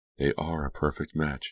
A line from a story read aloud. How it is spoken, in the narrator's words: she murmured